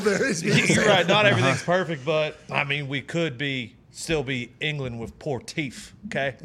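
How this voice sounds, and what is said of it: Cowboy-style accent. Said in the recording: “with your cowboy hat and the accent that we have no idea how you picked up”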